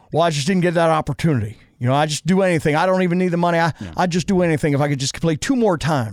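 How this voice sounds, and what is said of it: Elvis-like televangelist drawl. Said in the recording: “Why do you sound like Elvis? ... Why does Derek Carr sound like Elvis, and why do I sound like Derek Carr sounding like Elvis? ... you sound like a televangelist”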